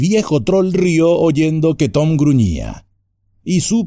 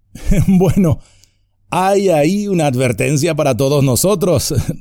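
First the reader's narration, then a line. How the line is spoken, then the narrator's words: Laughing. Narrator (Spanish): rió Merry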